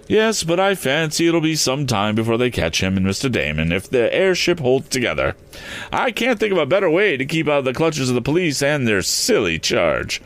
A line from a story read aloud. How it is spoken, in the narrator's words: chuckled the lawyer